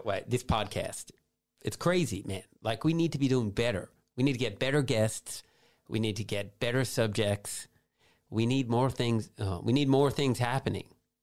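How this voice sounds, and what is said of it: Speaks in a put-on accent. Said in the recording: “the truth comes out when you start speaking in an accent ... You're good at it ... doing the accent correctly”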